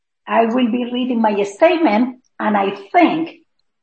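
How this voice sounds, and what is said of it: Strong foreign accent. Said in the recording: “my accent is very strong”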